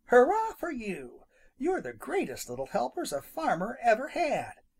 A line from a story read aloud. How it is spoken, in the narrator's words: cried Farmer Brown's boy